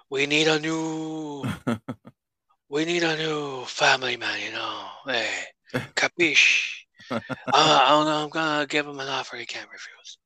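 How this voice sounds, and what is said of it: Put-on Italian-American mobster accent. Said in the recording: “as somebody who's half Italian, I'm offended by that impersonation.”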